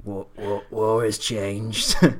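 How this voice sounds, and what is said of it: Bad gravelly character voice impression. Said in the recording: “That was really bad. Snake's accent there... Sounds like the guy from Senua game, Hellblade”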